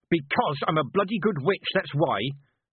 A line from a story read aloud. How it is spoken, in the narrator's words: snarled Mistress Weatherwax